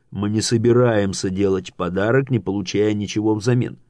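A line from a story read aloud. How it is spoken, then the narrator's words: Plain. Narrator (Russian): сказал Дирксон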